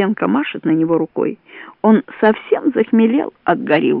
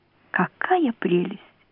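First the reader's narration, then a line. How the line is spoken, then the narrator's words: Thoughtful. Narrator (Russian): задумчиво говорит Маня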